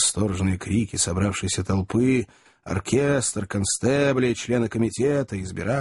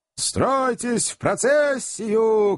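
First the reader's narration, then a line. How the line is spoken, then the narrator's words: Many voices shouting. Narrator (Russian): кричали 20 членов комитета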